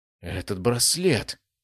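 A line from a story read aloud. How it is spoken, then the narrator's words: Whisper. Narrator (Russian): прошептал он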